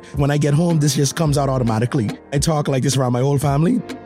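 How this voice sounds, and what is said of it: Bahamian accent. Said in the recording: “This is right here is my real accent ... That's the Bahamian in me coming out”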